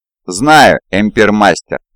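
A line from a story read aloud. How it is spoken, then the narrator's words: Plain. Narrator (Russian): ответил Омигон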